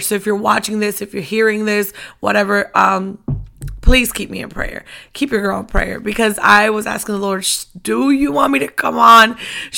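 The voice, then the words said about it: Strained, worn-out voice. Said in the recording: “as you can hear also, my voice is still not up to par ... I have not rested my voice”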